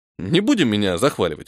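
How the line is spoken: Snort. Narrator (Russian): фыркнул я

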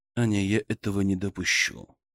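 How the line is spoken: Soft but firm interruption. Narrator (Russian): мягко, но твердо прервал ее Мышкин

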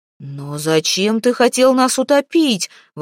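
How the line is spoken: Exclaiming. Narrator (Russian): воскликнул Хагер

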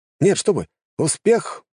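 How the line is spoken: Exclamation. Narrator (Russian): воскликнул он

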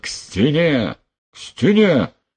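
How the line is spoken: Yelling. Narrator (Russian): заорал Потылицын

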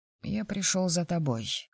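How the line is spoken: Quiet voice. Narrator (Russian): заговорил Рома негромким голосом

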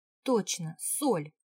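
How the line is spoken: Exclaimed. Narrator (Russian): воскликнула я

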